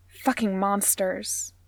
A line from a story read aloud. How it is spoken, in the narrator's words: she spat